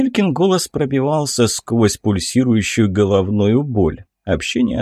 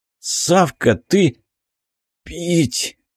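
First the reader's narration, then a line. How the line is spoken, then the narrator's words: Strained, forced out. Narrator (Russian): выдавил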